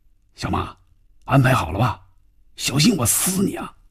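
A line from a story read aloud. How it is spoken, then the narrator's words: Tense, low voice. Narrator (Chinese): 范宇宙的心里更加紧张了……压低嗓音说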